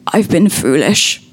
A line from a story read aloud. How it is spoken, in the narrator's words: croaked